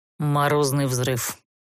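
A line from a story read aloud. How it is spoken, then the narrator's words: Dry reply. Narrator (Russian): Сухо ответил герцог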